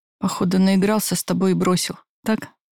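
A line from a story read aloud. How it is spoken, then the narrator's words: Hoarse, gloating laugh. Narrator (Russian): Прохрипел злорадно хохотнул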